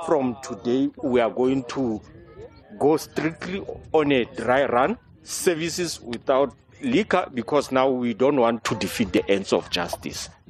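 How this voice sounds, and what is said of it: Distinct South African accent. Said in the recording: “this is in a South African. It's a South African guy, so his accent is very, it's very distinct.”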